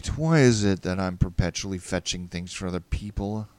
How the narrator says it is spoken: I muttered

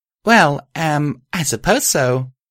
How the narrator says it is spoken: I stammered

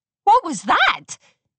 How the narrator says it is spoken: Amber Moon yelped

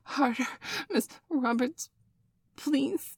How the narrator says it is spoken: Bailey whined

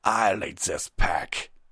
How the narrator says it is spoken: he spat

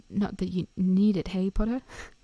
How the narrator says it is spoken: He laughed nervously

